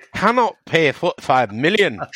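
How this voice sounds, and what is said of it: Scottish accent impression of Moyes. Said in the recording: “my Scottish impression”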